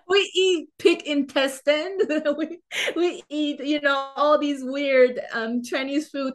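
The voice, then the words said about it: Non-native English accent. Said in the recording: “Not the kind of English that you speak ... Because I had this accent ... they noticed that I speak with an accent”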